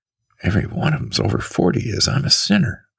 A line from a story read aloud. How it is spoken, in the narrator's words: murmured softly to me